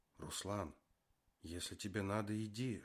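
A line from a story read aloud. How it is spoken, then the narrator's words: Whisper. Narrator (Russian): шепнула она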